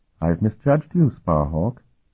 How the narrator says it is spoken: Sophronia said in her melodic voice

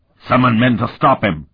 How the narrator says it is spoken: Martell barked

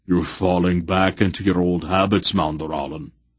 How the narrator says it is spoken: Beric observed in a grumpy voice

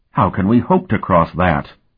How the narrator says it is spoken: Davier exclaimed

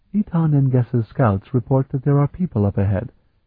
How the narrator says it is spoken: said quietly

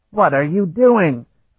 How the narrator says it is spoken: the pinch-faced fisherman screamed

